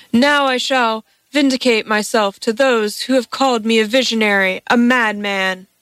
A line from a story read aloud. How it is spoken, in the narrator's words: Felipe cried in triumph